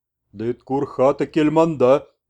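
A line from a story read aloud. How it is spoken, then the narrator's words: Hoarse half-whisper. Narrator (Russian): полушепотом просипел он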